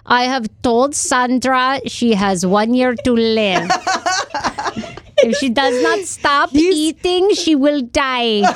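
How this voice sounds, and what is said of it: Imitates a doctor's accented voice. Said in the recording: “can you please do an impression of him? ... Dr. Now ... he's gotten from Russian. I mean, I think he's like Middle Eastern”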